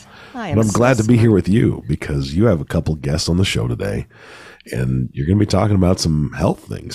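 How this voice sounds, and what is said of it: Voice sounds unwell, sick. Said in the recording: “I'm much better than you are today. I can hear it in your voice.”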